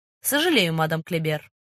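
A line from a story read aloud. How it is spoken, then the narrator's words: Dry reply. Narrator (Russian): сухо ответил сыщик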